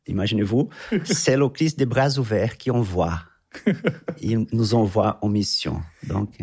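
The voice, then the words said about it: Brazilian accent speaking French. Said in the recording (French): “originaire du Brésil. Qu'on commence à le deviner, peut-être à l'entendre un petit peu... l'accent.”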